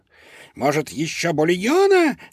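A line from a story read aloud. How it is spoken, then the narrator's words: Squealing chef. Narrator (Russian): взвизгнул шеф-повар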